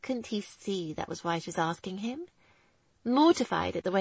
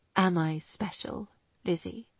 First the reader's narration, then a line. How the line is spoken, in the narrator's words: he asked quietly